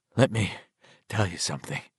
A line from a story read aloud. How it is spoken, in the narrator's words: he said, the words coming out in little pants and blows of warm air